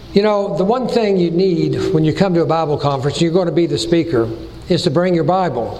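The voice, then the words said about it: Tennessee Southern accent. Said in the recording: “my Tennessee accent ... born and raised in Chattanooga”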